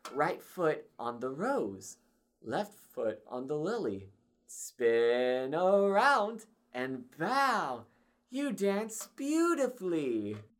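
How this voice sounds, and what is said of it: Imitating an instructional dance video voice. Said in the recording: “Good impression of whatever audio they probably used for that video.”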